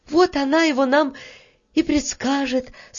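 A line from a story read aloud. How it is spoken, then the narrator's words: Relieved sigh. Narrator (Russian): с облегчением вздохнула Таня и скороговоркой повторила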